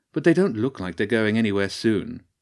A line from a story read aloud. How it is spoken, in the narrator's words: sighed the bird